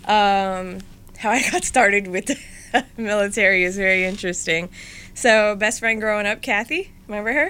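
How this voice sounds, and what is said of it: New Jersey accent. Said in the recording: “raised in North Brunswick, New Jersey. I usually tell people, since I have the accent and the attitude”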